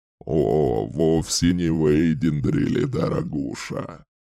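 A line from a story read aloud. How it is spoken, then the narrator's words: Chuckling. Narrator (Russian): Хохотнул Джеган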